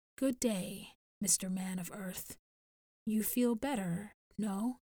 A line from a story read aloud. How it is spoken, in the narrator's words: Narana said softly